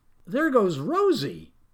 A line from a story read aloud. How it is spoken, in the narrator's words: cried Farmer Dilly